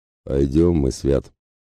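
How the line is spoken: Muttering. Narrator (Russian): пробурчал Ратибор

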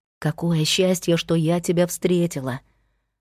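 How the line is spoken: Whisper. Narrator (Russian): продолжала шептать Кира

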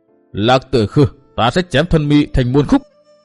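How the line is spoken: Through-clenched-teeth shout. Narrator (Vietnamese): Chàng nghiến răng quát

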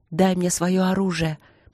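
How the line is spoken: Hoarse request. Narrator (Russian): попросила Ангелина сипло

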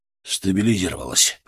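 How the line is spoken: Exhaled words. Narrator (Russian): выдохнул Антон

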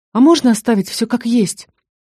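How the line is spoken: Breathless exhale. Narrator (Russian): выдохнула я

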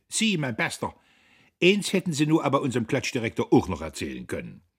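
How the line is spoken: Shrieking. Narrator (German): Professor Kühnchen seinerseits kreischte

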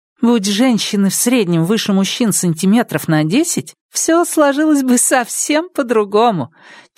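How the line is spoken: Laughing. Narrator (Russian): часто говорили они, смеясь

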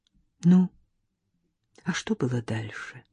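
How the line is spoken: Quiet question, woman. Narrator (Russian): тихо спросила она

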